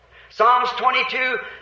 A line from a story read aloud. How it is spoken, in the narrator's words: he cried at the cross